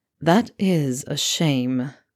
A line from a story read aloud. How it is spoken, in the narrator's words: Draco drawled